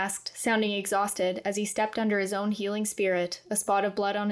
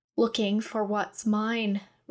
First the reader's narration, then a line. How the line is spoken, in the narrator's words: Reverence growled